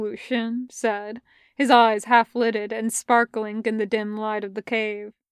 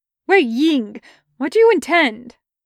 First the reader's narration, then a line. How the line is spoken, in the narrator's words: his breath catching in his throat as he exclaimed